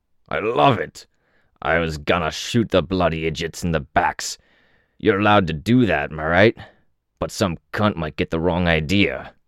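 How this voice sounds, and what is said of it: Coarse, barely intelligible accented voice. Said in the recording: “almost unintelligible with his coarse accent.”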